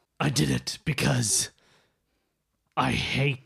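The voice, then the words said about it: Gruff character voice. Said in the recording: “He speaks in a gruff voice.”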